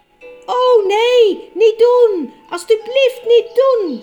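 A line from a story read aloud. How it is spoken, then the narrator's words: Screaming. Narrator (Dutch): schreeuwde Edmund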